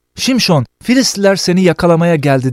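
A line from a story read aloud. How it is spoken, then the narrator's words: Shouting. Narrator (Turkish): diye bağırır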